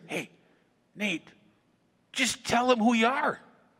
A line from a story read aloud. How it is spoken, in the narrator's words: whisper into our ear and say